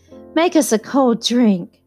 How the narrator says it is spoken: cried Daisy

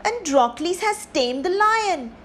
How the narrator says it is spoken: they cried

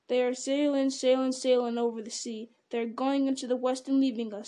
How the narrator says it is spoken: said Sam, half chanting the words, shaking his head sadly and solemnly

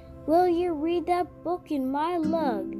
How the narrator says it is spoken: she cried

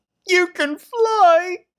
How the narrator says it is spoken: screamed George

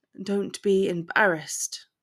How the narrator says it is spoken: he whispered huskily

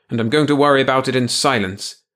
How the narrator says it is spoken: Cantrell said irritably

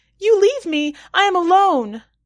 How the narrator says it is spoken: the girl springs onto my back, screaming

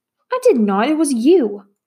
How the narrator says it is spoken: cried Matt

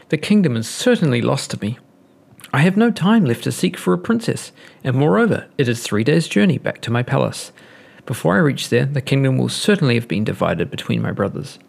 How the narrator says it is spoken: he cried

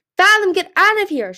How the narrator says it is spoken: she screamed

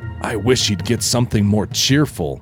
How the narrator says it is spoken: Emerald whispered to Lou

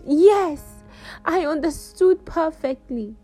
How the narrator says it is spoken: I screamed

